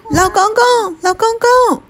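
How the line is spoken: Child shouting while running. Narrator (Chinese): 用他两条小腿可以跑得最快的速度，奔向有梯子的老人，喊着

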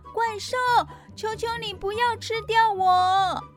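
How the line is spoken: Frightened scream. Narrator (Chinese): 艾利克斯大叫

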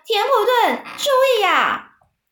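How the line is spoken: Shrieking. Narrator (Chinese): 韦伯尖叫说

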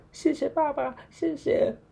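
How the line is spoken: Moved, tearful, excited. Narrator (Chinese): 我感动到快要眼泪都哭出来了，又吵又跳的说

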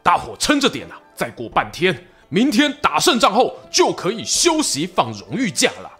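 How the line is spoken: Rousing shout to troops. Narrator (Chinese): 曹操啊，对手下官兵精神喊话

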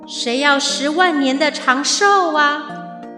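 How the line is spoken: Distant voice from above. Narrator (Chinese): 天神的声音从云端远远地传送到了地面

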